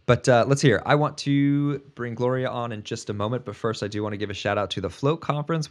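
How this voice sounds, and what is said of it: Rough, hoarse voice. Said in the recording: “my voice is a little rough tonight ... The allergies have been brutal”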